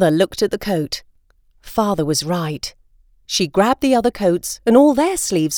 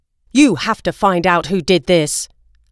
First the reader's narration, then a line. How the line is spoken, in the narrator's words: Father said angrily